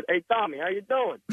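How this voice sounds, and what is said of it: Heavy put-on Italian accent. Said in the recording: “I'm very Italian, and I said with a heavy Italian accent”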